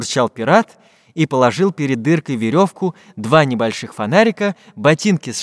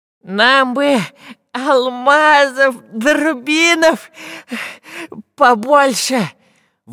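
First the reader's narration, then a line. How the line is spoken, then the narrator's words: Effortful exhale. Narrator (Russian): Высунув от старания язык, выдохнул шпион Дырка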